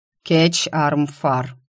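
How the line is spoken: Dry correction. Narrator (Russian): сухо поправил повелитель

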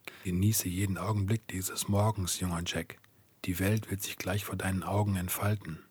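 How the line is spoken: Whisper into ear. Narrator (German): flüsterte

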